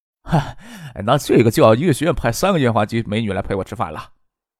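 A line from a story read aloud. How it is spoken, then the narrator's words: Joking, teasing. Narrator (Chinese): 杜飞拿石学兵的女朋友开玩笑道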